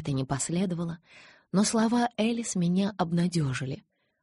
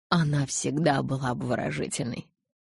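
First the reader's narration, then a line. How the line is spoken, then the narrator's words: Snorted. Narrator (Russian): Элис фыркнула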